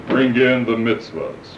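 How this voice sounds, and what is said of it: Deep booming voice. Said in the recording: “this deep voice”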